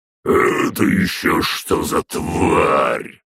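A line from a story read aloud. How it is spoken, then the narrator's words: Bear-prince's roar. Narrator (Russian): взревел княжич-медведь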